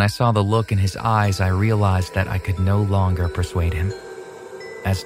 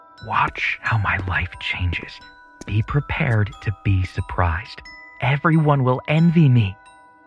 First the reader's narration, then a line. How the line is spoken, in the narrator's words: He whispered